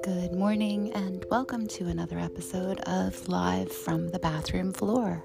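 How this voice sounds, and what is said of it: Calm, soothing radio-style voice. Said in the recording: “podcast voice my NPR voice ... I had the perfect voice for radio ... my voice is very calm”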